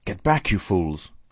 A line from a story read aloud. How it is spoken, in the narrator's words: cried the muffled voice of Kemp